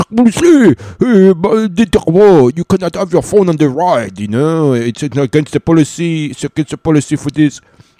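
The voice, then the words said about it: Put-on French accent. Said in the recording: “this guy had a French accent.”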